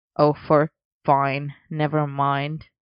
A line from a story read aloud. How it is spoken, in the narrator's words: Arthur grumbled